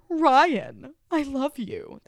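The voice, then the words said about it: Imitates another person's voice. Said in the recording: “my Mischa Barton OC impression, my Marissa Cooper impression”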